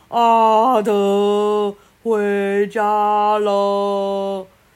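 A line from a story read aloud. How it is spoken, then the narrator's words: Thunderous booming voice. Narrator (Chinese): 那个声音像打雷一样，震得树叶都掉下来了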